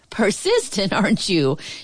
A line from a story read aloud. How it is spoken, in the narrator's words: chuckled